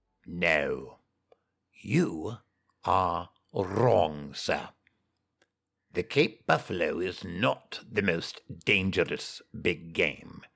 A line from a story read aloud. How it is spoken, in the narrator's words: he said, slowly